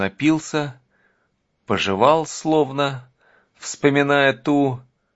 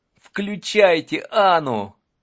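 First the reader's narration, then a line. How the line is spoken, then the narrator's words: Pleading. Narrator (Russian): взмолился Юрий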